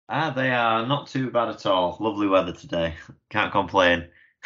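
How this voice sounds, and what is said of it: Northern English accent. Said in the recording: “I'm in the north, as you can probably tell from the accent.”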